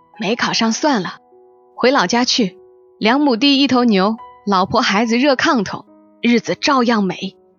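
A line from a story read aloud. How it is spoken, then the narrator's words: Thoughtful, then laughing. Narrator (Chinese): 许青山沉吟一声，笑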